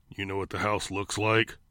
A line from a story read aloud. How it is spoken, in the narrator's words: Clown asked in a growling engine of a voice